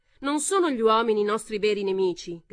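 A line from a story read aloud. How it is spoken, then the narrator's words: Woman shouting. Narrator (Italian): gridò una donna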